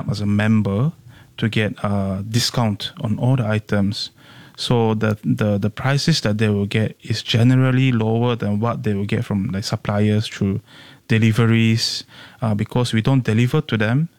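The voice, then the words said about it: Singaporean-accented English. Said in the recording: “You're very Singaporean accent ... the way you speak, the words you choose, your accent, it's very comfortably Singaporean”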